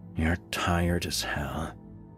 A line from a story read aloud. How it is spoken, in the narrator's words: muttered to himself